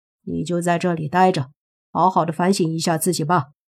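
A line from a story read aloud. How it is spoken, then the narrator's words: Cold. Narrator (Chinese): 莫凡也对这女孩没什么好感，冷冷地说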